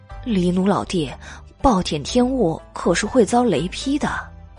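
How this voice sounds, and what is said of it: Quiet, hushed speech. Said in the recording (Chinese): “小声的说”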